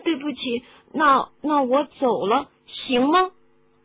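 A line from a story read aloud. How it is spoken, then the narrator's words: Stammering. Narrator (Chinese): 哈利结结巴巴的说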